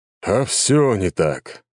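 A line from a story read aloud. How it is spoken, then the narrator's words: Sigh. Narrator (Russian): вздохнул Леонид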